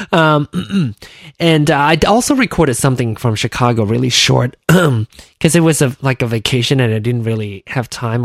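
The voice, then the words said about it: Hoarse, voice giving out. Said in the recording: “my voice, I lose my voice”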